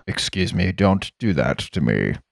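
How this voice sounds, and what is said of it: Flat, monotone, unemotional character voice. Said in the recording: “He doesn't have a lot of emotion. ... He's stoic ... He's very monotone.”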